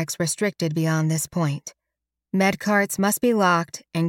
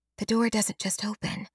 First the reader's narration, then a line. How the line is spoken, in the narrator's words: Halliday whispers